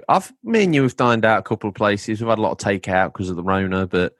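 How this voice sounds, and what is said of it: English accent. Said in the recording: “I'm an Englishman in New York ... You can hear it in my accent when I talk.”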